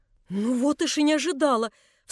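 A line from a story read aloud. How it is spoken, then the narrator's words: Startled cry. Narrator (Russian): вскрикнула Анна Андреевна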